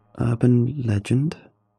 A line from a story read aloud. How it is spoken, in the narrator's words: I muttered, barely loud enough for anyone to hear in the ever-growing noise of the gym